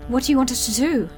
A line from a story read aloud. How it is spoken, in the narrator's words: Penny gasped